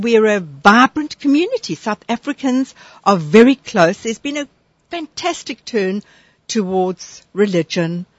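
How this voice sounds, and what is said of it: South African accent. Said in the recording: “where are you from? With that accent. ... I'm from South Africa.”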